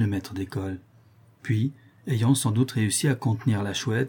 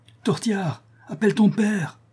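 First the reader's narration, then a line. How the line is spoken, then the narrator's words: Panting, exhausted shout. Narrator (French): cria la Chouette, d'une voix haletante, épuisée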